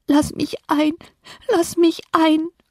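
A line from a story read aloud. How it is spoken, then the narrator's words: Deeply sad sobbing. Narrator (German): Eine todtraurige Stimme schluchzte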